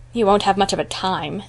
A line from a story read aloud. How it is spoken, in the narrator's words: said Phil scornfully